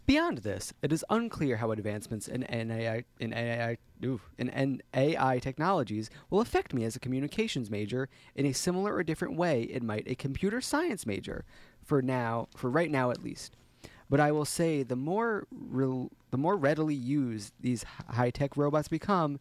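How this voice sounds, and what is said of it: Newscaster-style reading voice. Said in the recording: “my direction to you is like newscaster”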